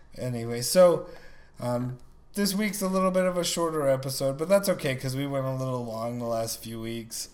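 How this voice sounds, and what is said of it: Hoarse, sick-sounding voice. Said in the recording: “My throat just sounds like I'm sick still ... just sound like you're wrecked ... it makes my throat or my voice sound awful for weeks ... I sound sick”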